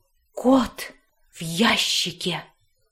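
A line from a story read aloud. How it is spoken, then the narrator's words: Loud reverent whisper. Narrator (Russian): повторил пират огромным шепотом, благоговейно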